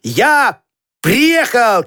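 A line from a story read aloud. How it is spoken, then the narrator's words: Shout. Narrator (Russian): крикнул Петька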